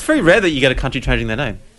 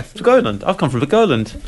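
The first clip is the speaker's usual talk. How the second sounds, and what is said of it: Silly put-on accent. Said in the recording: “We'll have a stupid accent.”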